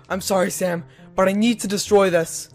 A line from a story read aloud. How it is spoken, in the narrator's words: Kyle yelled in a hurry